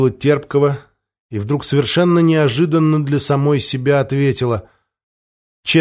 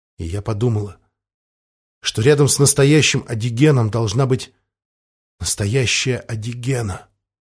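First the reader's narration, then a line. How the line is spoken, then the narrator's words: Girl, quiet. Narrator (Russian): тихо закончила девушка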